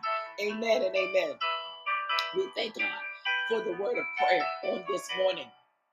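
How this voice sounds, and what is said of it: Hoarse, strained voice. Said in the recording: “I'm losing my voice already.”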